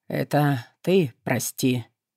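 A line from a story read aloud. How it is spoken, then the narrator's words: Hoarse. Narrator (Russian): сипло вымолвила Кара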